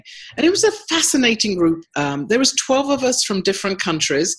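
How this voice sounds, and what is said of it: American accent. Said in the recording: “I was the US representative with my accent.”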